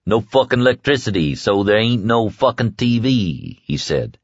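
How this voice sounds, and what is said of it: Thick drunken southern drawl. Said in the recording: “As he grew more drunk, his southern accent grew more pronounced, putting fur on his words.”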